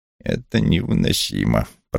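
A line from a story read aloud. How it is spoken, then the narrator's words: Muttering. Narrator (Russian): пробурчал Вулф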